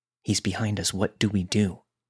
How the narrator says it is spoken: we whispered to each other

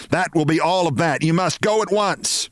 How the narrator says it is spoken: she shouted

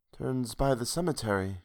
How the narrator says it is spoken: she murmured

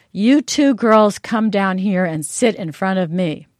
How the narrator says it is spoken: the minister said in a very loud voice

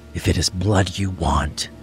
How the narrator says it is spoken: Cain whispered

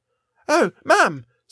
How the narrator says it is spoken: squeaked Esther

